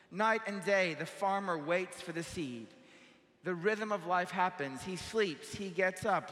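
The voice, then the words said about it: Speaks with a noticeable accent. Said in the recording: “I'm lost with my accent”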